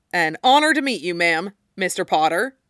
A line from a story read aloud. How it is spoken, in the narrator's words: said Reg Cattermole